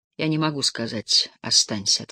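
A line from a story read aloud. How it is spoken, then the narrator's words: Plain. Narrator (Russian): ответила она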